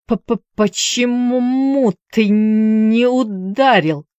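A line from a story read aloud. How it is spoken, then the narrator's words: Wheezed. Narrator (Russian): просипел матрос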